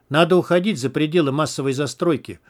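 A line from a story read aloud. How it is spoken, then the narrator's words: Plain. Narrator (Russian): сказал он егерю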